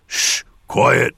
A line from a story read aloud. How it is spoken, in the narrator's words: Torum hissed